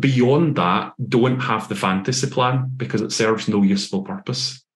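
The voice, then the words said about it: Scottish accent. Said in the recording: “your Scottish accent”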